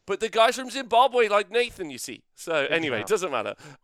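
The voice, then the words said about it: Put-on Zimbabwean-style accent. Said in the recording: “this accent that slowly is like, hey, did you forget about me? I'm accent herpes ... I'm only doing this accent because of the horrifying movie Blood Diamond”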